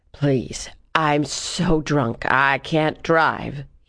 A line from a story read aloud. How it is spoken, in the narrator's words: he slurred